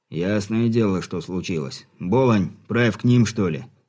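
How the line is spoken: Displeased grumble. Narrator (Russian): недовольно буркнул капитан

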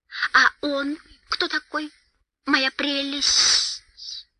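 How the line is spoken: Hissing. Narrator (Russian): прошипел Голлум

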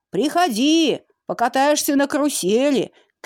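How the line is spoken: Shouted after him. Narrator (Russian): крикнул ему вдогонку карусельщик

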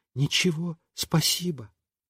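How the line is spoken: Quiet. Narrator (Russian): она бы сказала тоже тихонько

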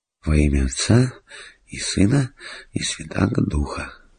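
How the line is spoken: Whispering. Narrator (Russian): шептал он

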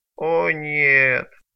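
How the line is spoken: Groaning. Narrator (Russian): простонал бедняга

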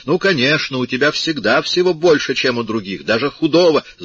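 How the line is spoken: Heated shout. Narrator (Russian): Мать запальчиво крикнула

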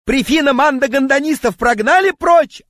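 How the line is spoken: Yelling. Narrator (Russian): орал он

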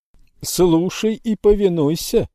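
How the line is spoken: Shouted. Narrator (Russian): прокричал он

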